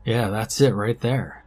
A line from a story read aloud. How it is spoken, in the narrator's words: Max stated flatly